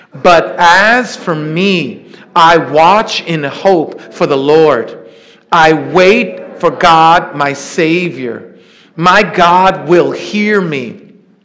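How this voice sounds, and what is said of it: Loud group reading aloud. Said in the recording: “in a nice loud voice”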